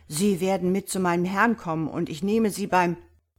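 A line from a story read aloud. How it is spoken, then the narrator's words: Roaring. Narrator (German): brüllte er jenen an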